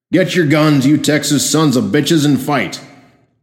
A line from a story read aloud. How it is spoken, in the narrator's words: voice called out from the street